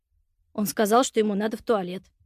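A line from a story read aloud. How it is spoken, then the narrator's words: Muttered. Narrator (Russian): пробормотал Антон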